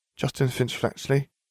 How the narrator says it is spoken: she murmured

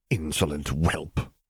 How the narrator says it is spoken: muttered an unpleasant voice that grated on his nerves

